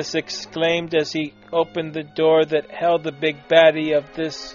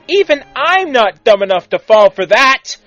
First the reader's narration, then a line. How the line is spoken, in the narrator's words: Timmy exclaimed, for he, too, had fallen for lackluster evil plans